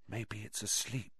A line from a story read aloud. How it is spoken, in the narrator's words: he breathed